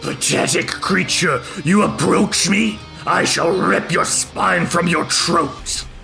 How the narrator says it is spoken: she's snarling down at you, says

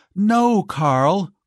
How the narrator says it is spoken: cried Giselle

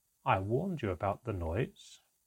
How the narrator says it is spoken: my father said quietly

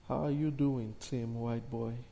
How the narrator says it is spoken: he said

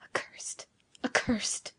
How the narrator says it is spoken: muttered Giovanni, addressing himself

